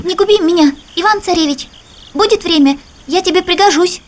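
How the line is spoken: Hare speaking in human voice. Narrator (Russian): заяц говорит ему человеческим голосом

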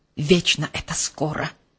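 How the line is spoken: Grumbling. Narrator (Russian): проворчал Герхард

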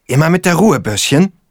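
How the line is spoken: Angry hissing mother. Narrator (German): faucht mich seine Mutter an

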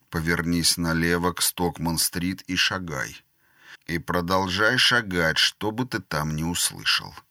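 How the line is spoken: Quiet. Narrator (Russian): Скеллан негромко сказал

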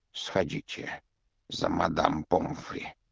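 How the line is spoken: Whispered request. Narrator (Russian): шепотом попросил Дамблдор

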